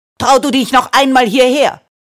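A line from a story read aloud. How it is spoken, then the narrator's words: Furious shout. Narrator (German): schrie die Frau voller Wut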